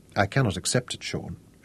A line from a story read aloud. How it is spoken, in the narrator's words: she said